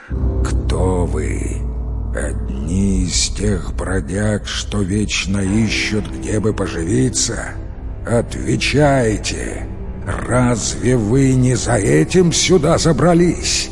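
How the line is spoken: Thunderous giant's question. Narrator (Russian): циклоп спросил громоподобным голосом

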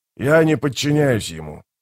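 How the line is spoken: Growled. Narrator (Russian): прорычал Скворец

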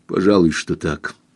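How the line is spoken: Gloomy male reply. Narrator (Russian): мрачно ответил он

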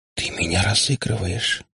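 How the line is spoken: Whisper. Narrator (Russian): прошептала Ирка

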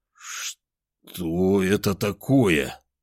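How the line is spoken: Forced out with difficulty. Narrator (Russian): С трудом выдавил я

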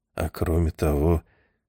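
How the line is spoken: Quiet addition. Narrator (Russian): тихо добавил Талок

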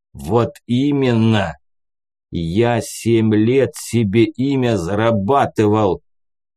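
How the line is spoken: Hoarse growl. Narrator (Russian): прорычал севшим голосом Рябый

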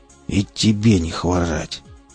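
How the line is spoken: Impatient, through gritted teeth. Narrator (Russian): процедил сквозь зубы, желая поскорее скрыться

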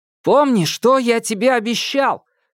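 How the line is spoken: Impulsive shout. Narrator (Russian): крикнул, поддавшись внезапному порыву

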